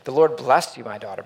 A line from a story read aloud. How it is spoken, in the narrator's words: Boaz exclaimed